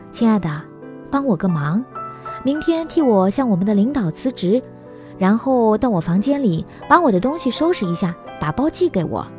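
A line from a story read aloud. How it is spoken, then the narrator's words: Sighing. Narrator (Chinese): 他叹了口气说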